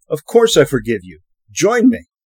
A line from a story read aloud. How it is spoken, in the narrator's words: The young man, the young king, exclaimed